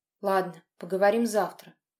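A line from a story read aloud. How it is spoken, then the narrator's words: Dry curt remark. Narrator (Russian): сухо бросил Лёша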